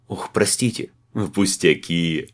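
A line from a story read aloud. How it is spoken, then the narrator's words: Good-natured hearty laughter. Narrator (Russian): Добродушно расхохотался тамирец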